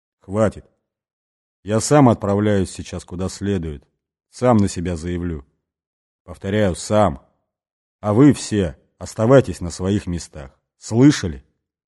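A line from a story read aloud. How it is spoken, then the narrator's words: Quiet but stern. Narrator (Russian): Бастон негромко, но жестко сказал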